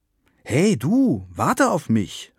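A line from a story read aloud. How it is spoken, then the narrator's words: Called out. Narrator (German): rief Frieda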